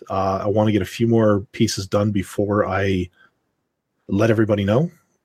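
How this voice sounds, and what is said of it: Rough, hoarse voice. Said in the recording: “my voice is sounding a little bit rough”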